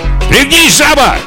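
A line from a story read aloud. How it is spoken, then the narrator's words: Shout from behind. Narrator (Russian): крикнул сзади Хоккайдо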